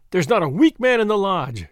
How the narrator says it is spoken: cried McGinty

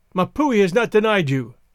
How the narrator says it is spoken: he cried

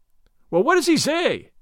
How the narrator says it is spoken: cried Gordon, in great excitement

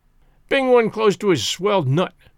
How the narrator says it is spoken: growled Spears

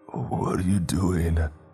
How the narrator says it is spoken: he slurred, his voice hoarse

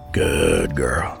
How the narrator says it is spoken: he murmured

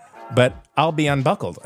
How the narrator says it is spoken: I said

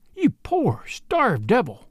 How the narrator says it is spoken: cried

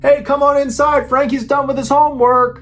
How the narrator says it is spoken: Frankie's mom yelled

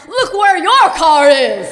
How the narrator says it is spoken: suddenly I go from being terrified to wanting to bust out laughing, and without thinking, I yell back

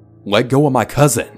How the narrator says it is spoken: screamed

